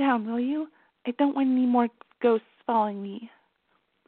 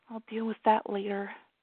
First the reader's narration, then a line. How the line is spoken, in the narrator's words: she muttered